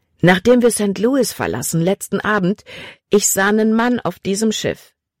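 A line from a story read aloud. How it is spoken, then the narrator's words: Plain. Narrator (German): sagte er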